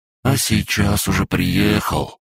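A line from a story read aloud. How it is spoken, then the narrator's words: Drawn-out drawl. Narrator (Russian): протянул дракоша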